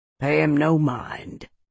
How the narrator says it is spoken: Jeb murmured to me

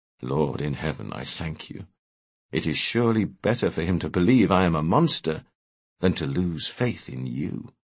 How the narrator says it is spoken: Abraham murmured under his breath to himself

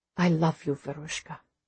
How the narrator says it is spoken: he says softly

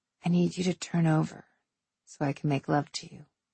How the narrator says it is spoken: I whispered

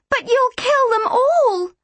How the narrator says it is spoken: I screamed, tears lashing down my face

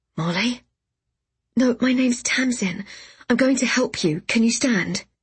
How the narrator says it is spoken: he stammered

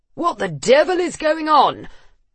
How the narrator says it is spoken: Neil bellowed

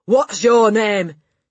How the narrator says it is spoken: she barked

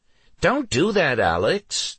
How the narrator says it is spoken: Jodlin hotly replied

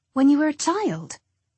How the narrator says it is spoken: I blurted out the words

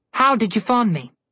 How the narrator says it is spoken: she snapped

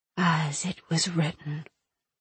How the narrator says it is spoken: the Oracle whispered, a chorus of voices accompanying the sound

